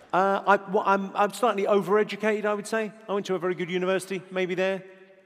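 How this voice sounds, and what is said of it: Posh British accent. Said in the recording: “Where did you get your posh accent from?”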